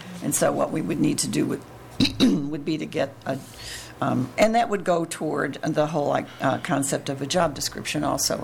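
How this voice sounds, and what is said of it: Strained, fading hoarse voice. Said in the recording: “Sorry, I'm losing my voice.”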